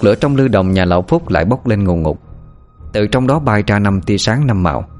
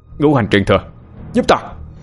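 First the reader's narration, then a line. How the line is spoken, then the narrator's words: Sharp shout. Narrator (Vietnamese): quát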